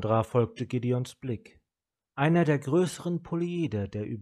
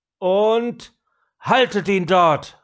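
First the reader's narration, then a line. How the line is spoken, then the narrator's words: Calling out. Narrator (German): rief Gideon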